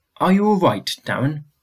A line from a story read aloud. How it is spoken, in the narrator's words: Mum asked